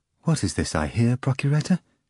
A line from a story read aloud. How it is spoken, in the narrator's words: Caiapha replied calmly and proudly